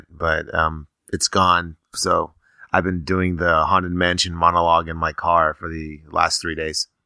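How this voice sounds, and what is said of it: Hoarse voice. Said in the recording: “sounding a little hoarse ... I don't know where my voice went”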